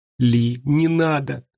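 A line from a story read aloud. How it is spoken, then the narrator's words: Whimpering. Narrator (Russian): захныкала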